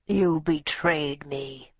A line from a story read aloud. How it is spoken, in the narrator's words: he said in his thick, guttural, familiar voice